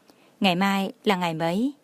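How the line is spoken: Tipsy gentle question. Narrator (Vietnamese): Có lẽ Tô Thụy Kỳ hơi say, dịu dàng hỏi

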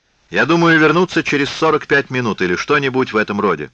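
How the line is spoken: Shout. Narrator (Russian): крикнул Алан

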